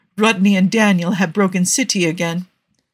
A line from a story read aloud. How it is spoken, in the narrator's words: Zelenka said calmly over the comms